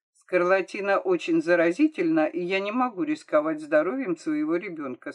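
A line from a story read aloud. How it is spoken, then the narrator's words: Plain. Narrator (Russian): сказал доктор Поле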